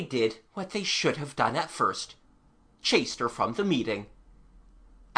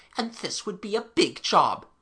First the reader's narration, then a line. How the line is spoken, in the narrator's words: they grumbled